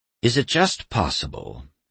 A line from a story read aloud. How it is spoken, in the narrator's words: he sighed